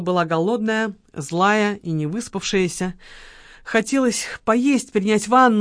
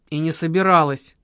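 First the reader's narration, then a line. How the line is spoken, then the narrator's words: Grumble. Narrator (Russian): буркнула Лола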